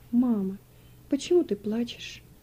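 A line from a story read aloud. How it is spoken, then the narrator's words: Timid question. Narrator (Russian): робко спросил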